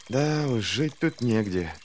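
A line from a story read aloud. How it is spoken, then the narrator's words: Whisper. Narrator (Russian): прошептал Луфар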